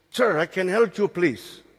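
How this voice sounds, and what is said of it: Thick Spanish accent. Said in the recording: “Thick Spanish accent.”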